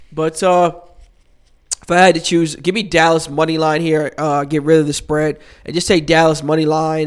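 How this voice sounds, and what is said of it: Congested voice from a cold. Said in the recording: “excuse my voice tone. I got a little cold action right now, wiping my nose off”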